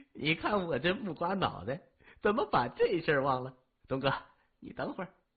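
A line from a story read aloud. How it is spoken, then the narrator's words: Laughing. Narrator (Chinese): 老七笑着说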